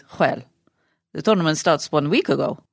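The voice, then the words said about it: Attempted Spanish accent impression. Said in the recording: “do a Nadal impersonation ... Oh, my Spanish. You know when you can't do an accent and you give it a go and it just is Borat?”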